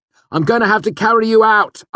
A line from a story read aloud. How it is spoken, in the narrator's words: I shouted